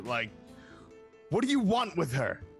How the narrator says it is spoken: He hisses out at you

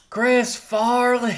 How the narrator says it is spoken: Somebody just yells

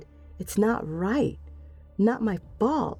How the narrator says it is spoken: she said, her voice rising

